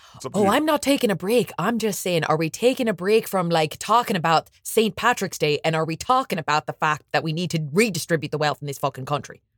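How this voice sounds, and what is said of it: Put-on Irish accent. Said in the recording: “your Irish accent ... do the accent”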